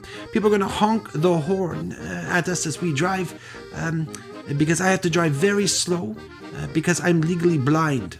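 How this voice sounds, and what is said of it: Terrible put-on German accent. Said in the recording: “I'm doing a terrible German accent”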